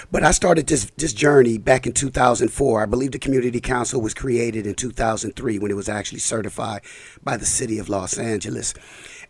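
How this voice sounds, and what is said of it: Slightly scratchy, hoarse voice. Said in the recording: “excuse my voice because I just caught a little cold. So, if I'm a little scratchy or back and forth”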